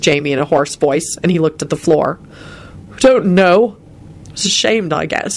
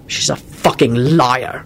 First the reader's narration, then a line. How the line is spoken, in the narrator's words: Quentin spat out wrathfully